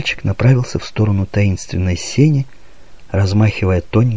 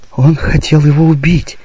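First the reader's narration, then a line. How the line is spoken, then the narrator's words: Girl exclaiming. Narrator (Russian): воскликнула девочка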